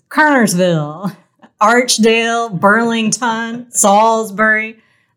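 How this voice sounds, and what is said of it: Imitates a sports commentator's voice. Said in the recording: “my pretty poor impression of ESPN sports commentator Stephen A. Smith”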